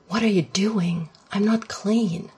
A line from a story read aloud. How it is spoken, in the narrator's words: Shane gasped